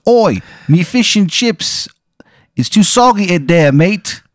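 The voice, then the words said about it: Bad fake English accent. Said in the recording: “It's a terrible accent. It's so a bad, really bad English accent ... Almost like he's faking it”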